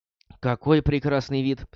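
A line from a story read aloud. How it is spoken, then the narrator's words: Sighing. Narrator (Russian): вздохнув, сказала Шави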